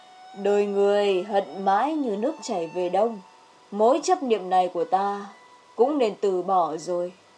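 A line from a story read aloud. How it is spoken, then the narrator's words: Sighing, sorrowful. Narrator (Vietnamese): Nghi Vương chỉ thở dài một tiếng, ngậm ngùi nói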